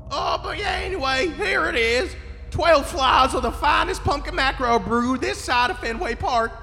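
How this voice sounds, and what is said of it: Southern accent. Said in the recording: “he has a Southern accent.”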